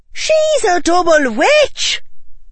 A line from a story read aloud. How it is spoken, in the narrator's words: shouted Tracy, her voice so high it cracked